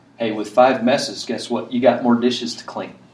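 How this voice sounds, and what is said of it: Sarcastic delivery. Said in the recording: “I'm just being sarcastic. I'm being sarcastic.”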